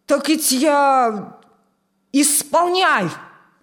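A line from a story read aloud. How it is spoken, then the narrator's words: Barked command. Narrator (Russian): рявкнул командир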